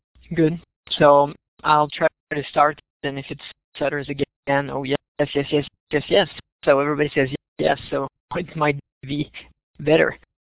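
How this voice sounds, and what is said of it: Strong French-Canadian accent, fast speech. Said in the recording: “I'm speaking fast, so ... with a large French-Canadian accent”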